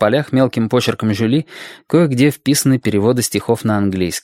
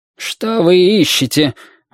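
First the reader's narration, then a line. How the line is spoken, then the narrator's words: Strained, forced out. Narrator (Russian): выдавил из себя Гермес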